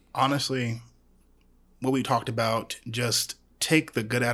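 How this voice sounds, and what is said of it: Usual voice. Nothing is said of it.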